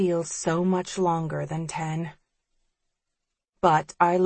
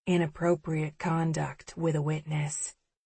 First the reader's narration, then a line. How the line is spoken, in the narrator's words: he murmurs